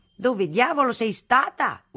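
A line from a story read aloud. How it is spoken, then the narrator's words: Father yelling. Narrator (Italian): urlava mio padre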